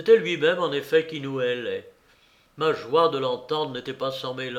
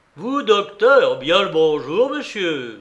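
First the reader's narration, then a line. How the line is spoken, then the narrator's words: Affable, wide-awake exclamation. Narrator (French): s'écria Silver, déjà réveillé complètement et rayonnant d'affabilité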